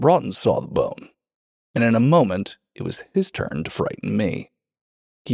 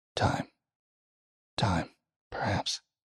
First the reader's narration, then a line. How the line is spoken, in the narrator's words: he muttered